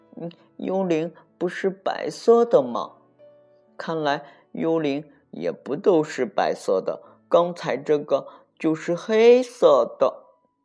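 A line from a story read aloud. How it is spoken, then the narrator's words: Trembling voice. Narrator (Chinese): 派瑞声音颤抖着说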